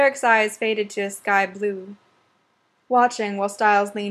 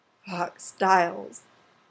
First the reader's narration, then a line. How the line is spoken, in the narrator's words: Derek said, his voice hoarse